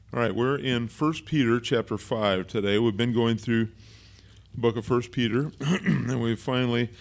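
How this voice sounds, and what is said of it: Strained, failing voice. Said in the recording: “I'm losing my voice here”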